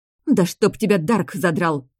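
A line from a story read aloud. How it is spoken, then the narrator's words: Blurted out. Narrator (Russian): Выпалила я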